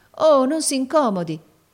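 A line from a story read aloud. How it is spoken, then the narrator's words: Flustered girl exclaiming. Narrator (Italian): esclamò la ragazza confusa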